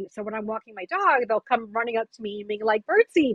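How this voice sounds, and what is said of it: New York accent. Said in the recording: “I'm a former New Yorker, in case you can't tell by my voice.”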